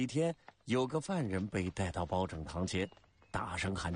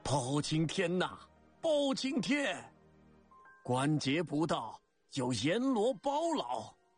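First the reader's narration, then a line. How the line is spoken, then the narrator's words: Crowd cheering loudly. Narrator (Chinese): 百姓纷纷高声欢呼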